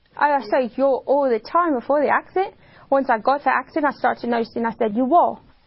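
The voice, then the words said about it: British-sounding accent. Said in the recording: “she wakes up with a British accent ... It's called Foreign Accent Syndrome ... here's how she sounds now”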